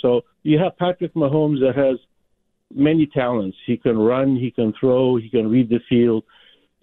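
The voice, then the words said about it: Rich radio-style voice. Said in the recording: “You have a beautiful radio voice”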